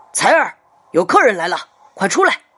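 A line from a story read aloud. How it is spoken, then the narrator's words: Shouted. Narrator (Chinese): 磊子吼道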